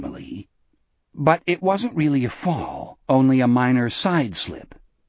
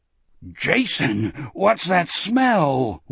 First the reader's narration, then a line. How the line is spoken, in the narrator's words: Wolf groaned